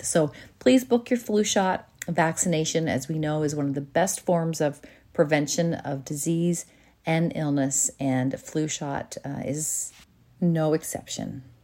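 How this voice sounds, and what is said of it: Congested voice from a cold. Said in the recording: “you can probably hear in my voice, I have a little bit of a cold ... in case anyone can hear that in my voice today”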